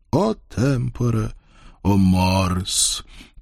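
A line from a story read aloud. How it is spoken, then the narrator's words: Sad ogre's sigh. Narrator (Russian): печально вздохнул людоед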